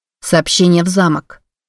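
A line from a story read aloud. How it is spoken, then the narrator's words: Said sternly. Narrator (Russian): строго сказала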